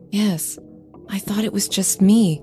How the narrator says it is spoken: I whispered

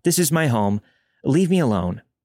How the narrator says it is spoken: I lied and yelled

